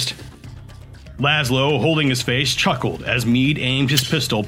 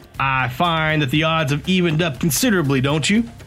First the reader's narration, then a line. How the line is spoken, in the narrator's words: Mead asked